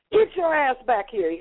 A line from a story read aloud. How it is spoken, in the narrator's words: he hollered down the street